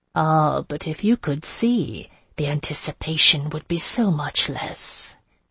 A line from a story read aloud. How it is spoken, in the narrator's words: she said softly